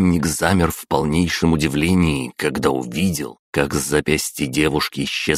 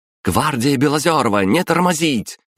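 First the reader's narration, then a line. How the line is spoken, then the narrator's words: Shouted. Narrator (Russian): прокричала Лиза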